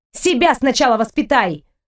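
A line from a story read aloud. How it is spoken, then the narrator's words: Snapped. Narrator (Russian): огрызнулась я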